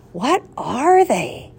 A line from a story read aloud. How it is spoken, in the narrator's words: gasped Thomas